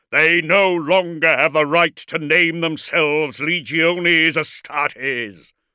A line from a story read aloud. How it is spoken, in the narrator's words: roared Magnaric for all to hear